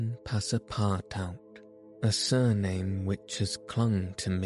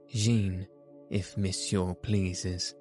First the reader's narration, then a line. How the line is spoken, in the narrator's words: replied the newcomer